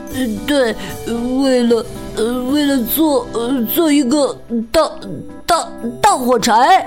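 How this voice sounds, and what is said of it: Whispered, stammering, incoherent speech. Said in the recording (Chinese): “语无伦次的小声说”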